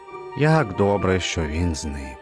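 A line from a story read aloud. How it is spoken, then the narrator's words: Relieved sigh. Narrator (Ukrainian): Полегшено зітхнув він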